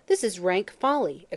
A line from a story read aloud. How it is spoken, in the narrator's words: exclaimed O'Gorman